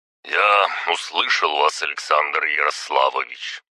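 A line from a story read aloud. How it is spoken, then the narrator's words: Deep bass voice. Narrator (Russian): пробасил Извольский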